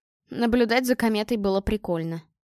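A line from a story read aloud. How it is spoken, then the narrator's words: Amused snort. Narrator (Russian): хмыкнул Игорь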